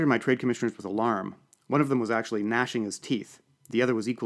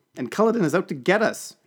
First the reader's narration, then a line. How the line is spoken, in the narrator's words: exclaimed